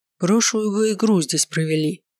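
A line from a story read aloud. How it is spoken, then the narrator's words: Grumbling. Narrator (Russian): проворчал тренер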